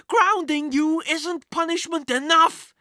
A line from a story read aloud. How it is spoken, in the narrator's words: his mother yelled